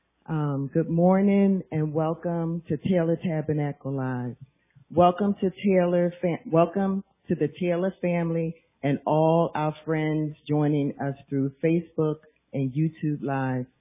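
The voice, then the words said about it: Raspy voice. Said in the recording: “My voice sound a little raspy”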